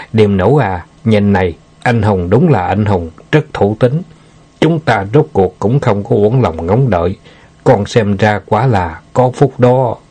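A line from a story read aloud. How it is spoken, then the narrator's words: Old man, smiling, warm. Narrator (Vietnamese): Lý Lão đầu thấy con gái không dám nhìn thẳng Tiểu Ngưu, liền mỉm cười nói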